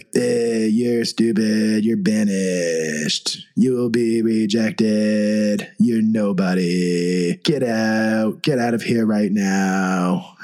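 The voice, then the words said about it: Donald Trump impression. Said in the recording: “I've never heard him do a Trump impression before, but that was not bad. Not bad.”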